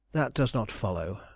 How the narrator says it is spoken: I answered sadly

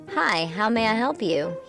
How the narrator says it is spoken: he replied

